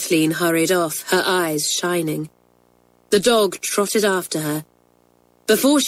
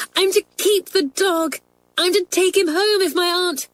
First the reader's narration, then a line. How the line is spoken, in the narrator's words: she cried